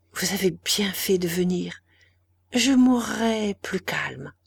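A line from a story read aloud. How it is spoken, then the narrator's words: Faint breathy whisper. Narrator (French): dit-elle, et ses paroles n'étaient qu'un souffle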